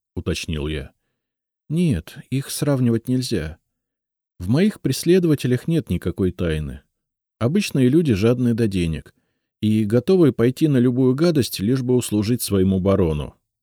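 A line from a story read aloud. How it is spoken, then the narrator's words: Plain. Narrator (Russian): ответила Лиза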